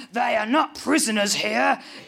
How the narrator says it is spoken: growls Peter

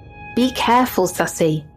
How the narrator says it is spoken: I would always hear my grandma yell behind me

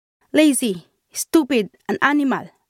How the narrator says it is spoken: my employer shouted angrily

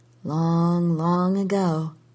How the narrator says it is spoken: she murmured

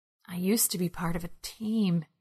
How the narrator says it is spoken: he whispered

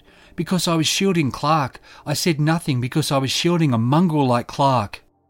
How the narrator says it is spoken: Trophine shouted

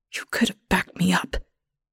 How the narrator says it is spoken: Ethel whispers, but I barely hear her ghost voice

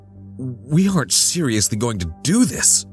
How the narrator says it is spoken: gasped, hands shaking

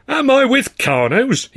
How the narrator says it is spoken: he cried, taking a theatrical step back in amazement

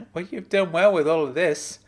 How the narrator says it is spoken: I replied between chuckles

